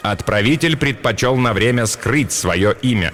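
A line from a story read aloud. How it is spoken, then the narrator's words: Plain. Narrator (Russian): ответил Ром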